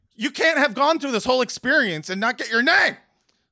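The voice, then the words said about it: Yelling loudly. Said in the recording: “sorry for yelling”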